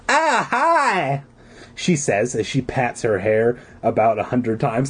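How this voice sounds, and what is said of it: Annoying California girl accent. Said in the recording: “I can only do the annoying California girl accent that I use for everyone.”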